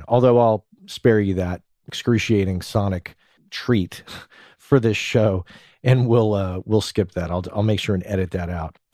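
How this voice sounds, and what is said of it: Scratchy, stuffy congested voice. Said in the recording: “I'm going to be a little stuffy... my voice is a bit. I've got a little bit of a scratchy voice... my nose is a little stuffed”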